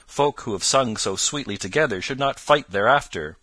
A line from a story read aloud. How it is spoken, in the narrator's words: quoth Robin, with the tears of laughter still in his cheeks